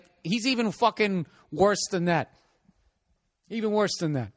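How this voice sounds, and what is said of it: Usual voice. Nothing is said of it.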